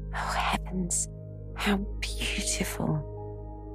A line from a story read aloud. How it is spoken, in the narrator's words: merely whispered in French